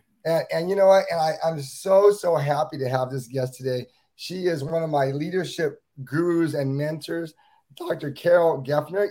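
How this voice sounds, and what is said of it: Voice sounds unwell, not usual. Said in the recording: “I'm a little bit under weather today. My voice is not what it usually is.”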